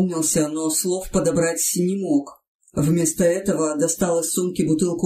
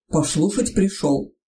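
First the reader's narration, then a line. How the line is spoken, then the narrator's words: Toothless mumble. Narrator (Russian): прошамкал Митрич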